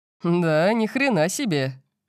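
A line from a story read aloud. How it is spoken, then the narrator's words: Laughing. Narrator (Russian): засмеялся папа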